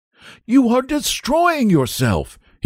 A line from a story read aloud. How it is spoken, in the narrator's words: he cried